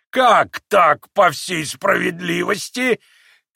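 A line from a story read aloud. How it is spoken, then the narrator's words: Cheerful shout. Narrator (Russian): крикнул еще веселее Федор Павлович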